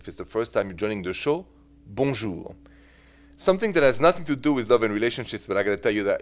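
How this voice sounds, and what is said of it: French accent. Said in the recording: “The accent is French, straight from Paris.”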